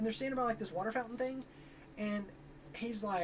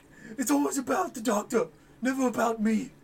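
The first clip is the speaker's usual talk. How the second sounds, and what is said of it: Imitates a TV character's accent. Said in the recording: “Didn't you like my accent? ... That sounded just like him”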